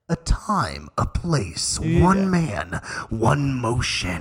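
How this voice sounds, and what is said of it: Movie trailer announcer voice impression. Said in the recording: “Ready for this impersonation? The movie guy. When you're in the theaters and he's like”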